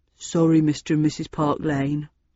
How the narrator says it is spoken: Gavin hung his head and mumbled

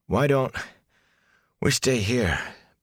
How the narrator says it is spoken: Perrin panted

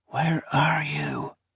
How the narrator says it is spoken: whispered

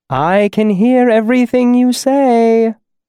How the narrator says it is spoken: my mother called sweetly from inside

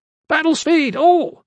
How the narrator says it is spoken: Strap shouted

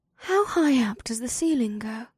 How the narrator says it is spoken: she breathed

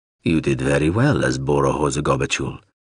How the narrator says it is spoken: Zoralundra said in his rumbling great voice

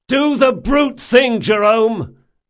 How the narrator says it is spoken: Locke shouted

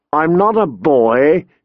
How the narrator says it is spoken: she spat

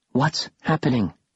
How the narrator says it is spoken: Bastille whispered

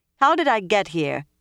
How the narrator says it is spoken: demanded loudly

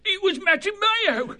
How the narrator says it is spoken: He whined piteously

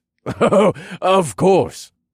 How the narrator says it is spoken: Elrin laughed

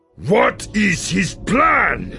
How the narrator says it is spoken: Yiv shouted

